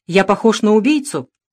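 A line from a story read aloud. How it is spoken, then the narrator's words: Stern. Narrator (Russian): строго отозвался Дронго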